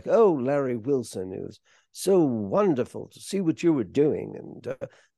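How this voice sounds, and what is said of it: Imitates another person's voice, poorly. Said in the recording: “bad Cary Grant impression because I can't really do an impression.”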